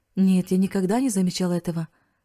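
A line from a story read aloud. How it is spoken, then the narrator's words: Plain. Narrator (Russian): ответил Риц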